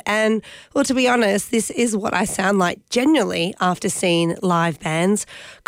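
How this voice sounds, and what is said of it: Croaky, husky voice from a cold. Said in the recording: “caught that devil of a head cold ... my voice might just sound like I've downed a bucket of sand ... croaky, husky”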